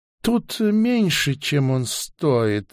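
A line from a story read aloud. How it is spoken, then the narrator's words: Seller's sigh. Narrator (Russian): вздохнул продавец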